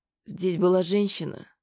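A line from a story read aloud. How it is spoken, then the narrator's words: Strained mutter. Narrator (Russian): пробормотала Аня, пытаясь встать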